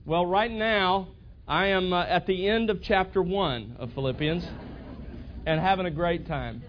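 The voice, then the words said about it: Southern Alabama accent. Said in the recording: “As you can hear, this accent hasn't been picked up in 5 months in Texas. It was actually from Alabama.”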